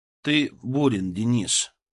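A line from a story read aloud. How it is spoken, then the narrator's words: Calm repetition. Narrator (Russian): повторил спокойно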